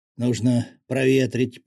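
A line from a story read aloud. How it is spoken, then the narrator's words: Hoarse wheeze. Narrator (Russian): прохрипел он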